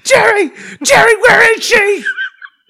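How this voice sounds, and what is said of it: Frenzied impression of a sitcom character. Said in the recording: “That was me trying to do Newman. But like a frenzied Newman.”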